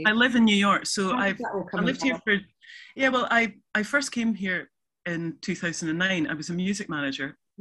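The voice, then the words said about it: Non-American accent. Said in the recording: “people will be able to tell from your accent that you're not from America”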